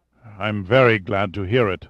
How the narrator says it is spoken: sighed Massard, letting out a deep sigh

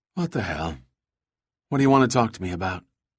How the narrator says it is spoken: She let out a bored sigh and then said

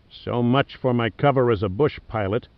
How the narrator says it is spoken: Stokes muttered

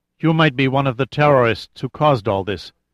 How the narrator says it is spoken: said in a controlled tone

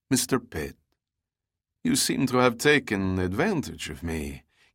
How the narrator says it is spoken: said in English, only slightly tinged with a Russian accent

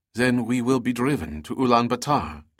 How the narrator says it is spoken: Teresa asked

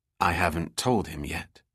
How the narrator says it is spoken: replied quietly

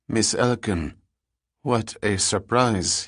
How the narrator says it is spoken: said in a flat tone that indicated her appearance was not quite welcomed

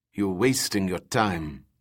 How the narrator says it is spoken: the pilot muttered

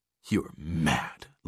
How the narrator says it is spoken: Lauren spat at Zale

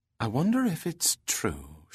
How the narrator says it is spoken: said softly

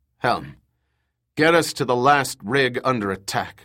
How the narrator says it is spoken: Max grunted

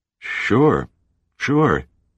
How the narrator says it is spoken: he stammered

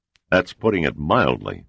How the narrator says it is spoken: Sandecker snorted

